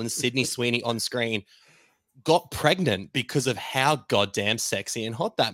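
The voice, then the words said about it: Australian accent. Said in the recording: “your accent alone ... It's very Australian.”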